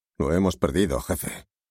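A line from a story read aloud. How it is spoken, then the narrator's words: Grumbled. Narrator (Spanish): refunfuñó Montaigne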